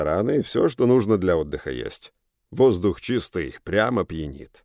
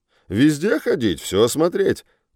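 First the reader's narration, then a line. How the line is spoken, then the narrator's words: Cheerful advice. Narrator (Russian): бодро советует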